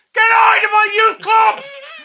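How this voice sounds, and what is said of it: Bellowing shout in Belfast accent. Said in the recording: “It was so loud. ... It's a bellow, isn't it, that Belfast accent”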